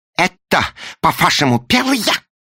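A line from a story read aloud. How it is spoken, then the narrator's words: Shouted. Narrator (Russian): закричал он пассажирскому помощнику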